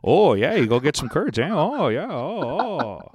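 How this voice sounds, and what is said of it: Exaggerated Wisconsin accent. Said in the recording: “the guys from Making a Murder... the most curd Wisconsin... beautiful accent. What a beautiful accent.”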